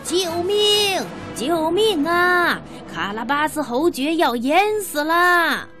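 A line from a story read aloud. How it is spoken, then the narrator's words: Desperate shouting cat. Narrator (Chinese): 猫就拼命的大叫起来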